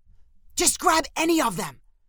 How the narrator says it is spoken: hissed Spencer

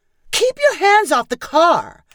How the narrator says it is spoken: Megan yelled out her window

